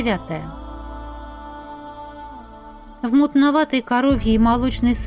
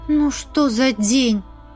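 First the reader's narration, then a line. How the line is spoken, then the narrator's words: Sigh. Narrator (Russian): вздохнула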